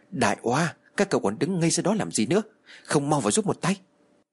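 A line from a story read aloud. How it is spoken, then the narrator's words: Hurried shout. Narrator (Vietnamese): Ba Hoành vội vàng hét lên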